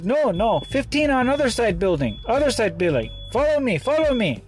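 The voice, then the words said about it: Put-on Mexican accent. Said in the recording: “in this little Mexican accent”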